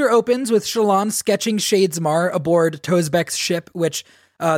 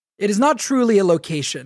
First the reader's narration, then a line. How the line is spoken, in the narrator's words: Yasna said